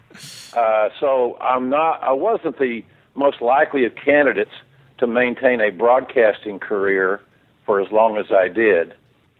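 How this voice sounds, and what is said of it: Southern American accent. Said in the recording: “I've got a southern accent, as anybody that has hearing can determine.”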